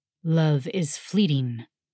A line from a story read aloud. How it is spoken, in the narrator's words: the dragon rumbled